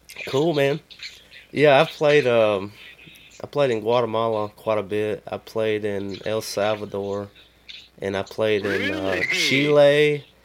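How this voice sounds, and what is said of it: Southern US accent with twang. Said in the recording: “you got that southern accent ... there's a twang on it”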